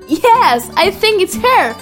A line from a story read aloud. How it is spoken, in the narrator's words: cried Dr